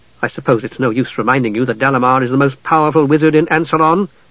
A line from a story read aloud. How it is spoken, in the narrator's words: Palin said testily